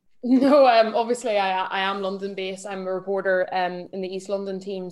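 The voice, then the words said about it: Northern Irish accent. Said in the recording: “that's not a Cockney accent there ... as you detected, I am from, well, I'm Irish, but I grew up in Northern Ireland”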